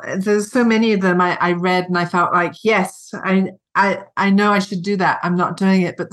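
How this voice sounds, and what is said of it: British accent. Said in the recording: “I have this British accent.”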